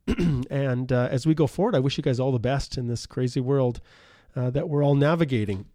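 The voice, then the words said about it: Worn out, nearly lost voice. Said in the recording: “my voice is just about gone here too”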